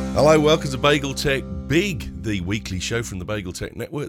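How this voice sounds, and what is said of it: Weak, hoarse, partly lost voice. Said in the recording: “my voice isn't, but never mind, I'll find it as we go”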